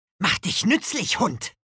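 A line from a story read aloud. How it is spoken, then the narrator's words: Angry hiss. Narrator (German): fauchte Nico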